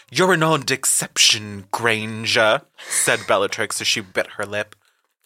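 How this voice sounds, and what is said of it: Stilted upper-class voice. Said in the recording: “she would be more like stilted upper class.”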